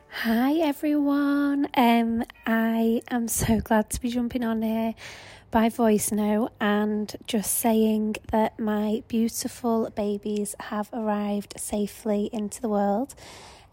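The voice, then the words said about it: Quieter, hushed speaking voice. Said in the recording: “you can probably hear in my voice that um, I am quieter than normal”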